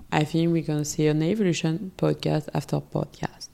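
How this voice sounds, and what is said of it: Non-native English accent. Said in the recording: “I hope my accent is not too bad.”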